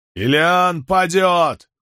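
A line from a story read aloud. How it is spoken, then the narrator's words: Shout taken up by crowd. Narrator (Russian): выкрикнул кто-то, и сотни голосов подхватили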